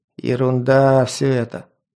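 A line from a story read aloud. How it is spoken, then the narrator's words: Grumbling Varangian. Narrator (Russian): пробурчал варяг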